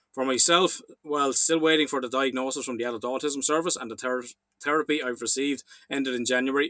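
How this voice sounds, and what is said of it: Irish accent. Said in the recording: “your Kiss Me Lucky Charms Irish accent”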